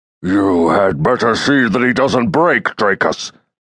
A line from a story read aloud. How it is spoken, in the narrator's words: the Centauri commander grumbled